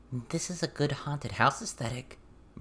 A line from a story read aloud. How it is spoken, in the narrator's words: Verona whispered